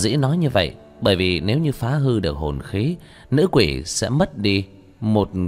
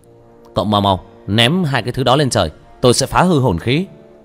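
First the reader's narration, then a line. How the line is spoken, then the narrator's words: Shouting. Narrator (Vietnamese): Hắn hét lên với Lý Hổ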